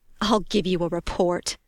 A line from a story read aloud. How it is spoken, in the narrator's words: hissed